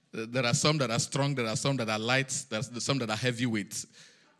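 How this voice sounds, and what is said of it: Speaks with a noticeable accent. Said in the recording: “Why can't you hear my own accent?”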